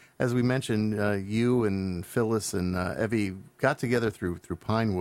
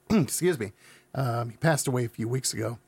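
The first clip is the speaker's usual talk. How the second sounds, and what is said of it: Choked-up, emotional voice. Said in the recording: “Oh, I'm getting choked up. ... while I'm choking here”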